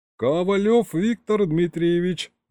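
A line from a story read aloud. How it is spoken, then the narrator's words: Cheerful, smiling middle-aged man. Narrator (Russian): радостно улыбнулся нам с экрана солидный такой дядечка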